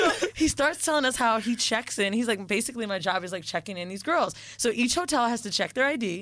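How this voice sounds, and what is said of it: Usual voice. Nothing is said of it.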